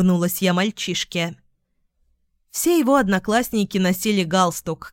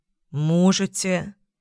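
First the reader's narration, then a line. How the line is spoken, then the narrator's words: Suspicious drawl. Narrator (Russian): протянул Артем с явным подозрением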